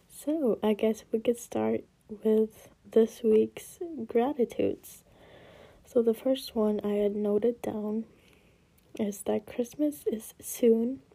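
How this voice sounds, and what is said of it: Tired, sad-sounding voice. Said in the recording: “I sound so sad. I'm not trying to sound sad on purpose. I think my voice is just a bit tired”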